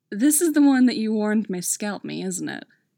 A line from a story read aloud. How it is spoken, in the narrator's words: Styles chuckles and remarks with amusement